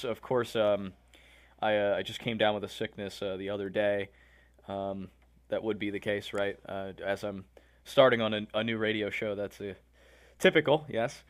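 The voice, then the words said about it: Slightly hoarse voice. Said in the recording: “I sound a little hoarse.”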